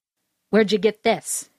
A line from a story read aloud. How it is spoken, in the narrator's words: snapped